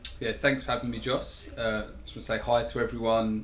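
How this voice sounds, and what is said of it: English accent with some twang. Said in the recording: “Please excuse my accent. Some people do have trouble understanding me. I am English, not Australian ... maybe there's some sort of twang”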